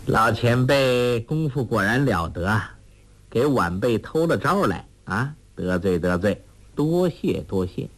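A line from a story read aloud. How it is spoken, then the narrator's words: Laughing. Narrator (Chinese): 朱聪笑道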